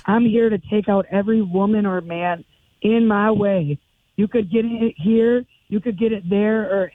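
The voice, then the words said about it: Strained, worn-out voice. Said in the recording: “I've been cheering and screaming and watching wrestling and stuff, so my voice is bad.”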